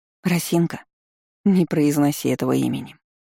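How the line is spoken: Tired request. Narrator (Russian): устало попросила я

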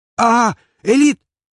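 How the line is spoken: Shout. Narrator (Russian): рубака позволил ему крикнуть

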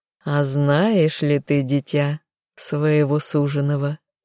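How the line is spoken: Purring female stranger. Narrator (Russian): мурлыкнула незнакомка

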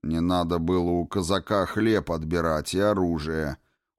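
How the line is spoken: Cold retort. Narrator (Russian): Холодно парировал две мишени

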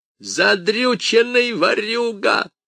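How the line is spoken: Creature yelling. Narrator (Russian): заорало существо

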